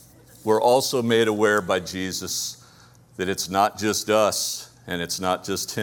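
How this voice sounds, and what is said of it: Usual voice. Nothing is said of it.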